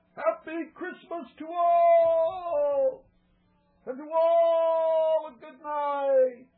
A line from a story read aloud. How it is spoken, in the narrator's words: I heard him exclaim ere he drove out of sight